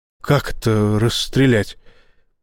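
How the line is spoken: Muttered. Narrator (Russian): пробормотал Боровский

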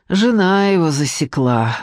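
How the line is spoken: Sighing. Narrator (Russian): вздохнула Надежда

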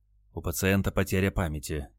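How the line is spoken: Quiet. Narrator (Russian): тихо сообщил санитар

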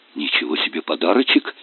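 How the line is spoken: Breathed out. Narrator (Russian): выдохнул Федя

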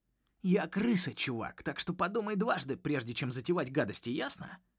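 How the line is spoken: Spitting hiss. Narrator (Russian): прошипел Рокет ему в лицо, обрызгав его капельками слюны

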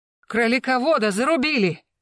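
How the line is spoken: Yelling. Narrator (Russian): заорал Восьмибратов

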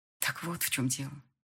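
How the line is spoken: Quiet reply. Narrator (Russian): ответила негромко

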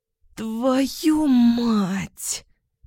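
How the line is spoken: Weak groan. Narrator (Russian): простонала Ваня, бессильно

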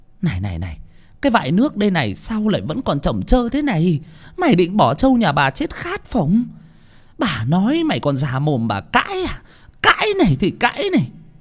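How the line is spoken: Hissing, furious shriek. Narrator (Vietnamese): bà Chánh vả cho lão Toán gù nổ cả đom đóm mắt mà rít lên

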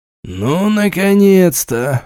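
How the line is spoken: Relieved exhale. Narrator (Russian): выдохнул Галицкий

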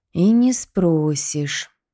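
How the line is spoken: Thoughtful drawl. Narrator (Russian): задумчиво протянул Николай

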